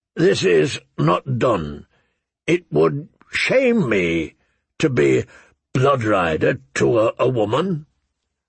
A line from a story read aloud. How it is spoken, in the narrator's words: he said hesitantly